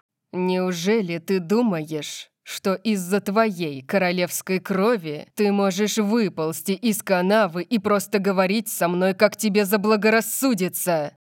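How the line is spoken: Hissing. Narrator (Russian): прошипел он

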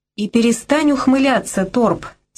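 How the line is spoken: Angry female voice. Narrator (Russian): сердито сказала она

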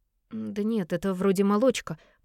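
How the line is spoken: Mumbled. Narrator (Russian): промямлила она

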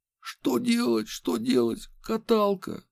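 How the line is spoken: Sudden breathless exhale. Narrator (Russian): Вдруг выдохнул он

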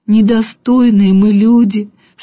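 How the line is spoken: Sobbing. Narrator (Russian): всхлипывал он

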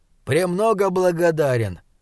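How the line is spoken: Rather cold reply. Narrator (Russian): довольно холодно отозвался Пэриш

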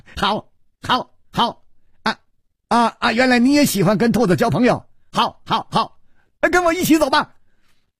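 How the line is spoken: Loud laughter. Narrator (Chinese): 薛宝宝反而大笑

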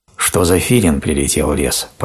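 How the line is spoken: Grumbling. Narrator (Russian): проворчал он

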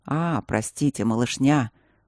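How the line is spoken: Remorseful hoarse wheeze. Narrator (Russian): Покаянно просипел он

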